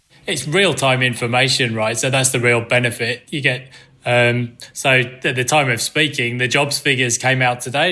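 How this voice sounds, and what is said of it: Non-Australian, English accent. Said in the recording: “I'm sure our listeners can hear your accent. You're not Aussie by birth.”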